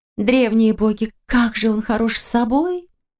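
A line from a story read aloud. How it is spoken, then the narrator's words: Near-moan into ear. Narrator (Russian): Чуть ли не простонала Валерия ей на ухо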